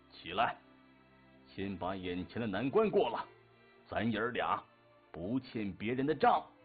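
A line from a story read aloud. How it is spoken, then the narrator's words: Stern, emotional roar. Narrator (Chinese): 爷爷微红着眼圈，威严地吼道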